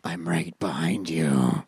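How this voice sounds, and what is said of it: Scary monster voice. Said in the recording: “my monster voice ... That's scary.”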